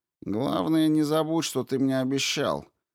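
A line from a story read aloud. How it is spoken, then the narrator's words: Grumbling. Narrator (Russian): проворчал Флегма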